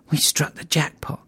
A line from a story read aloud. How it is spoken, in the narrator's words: Deke whispered